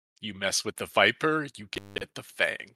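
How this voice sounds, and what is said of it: Pirate voice. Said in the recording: “You're in your best pirate voice.”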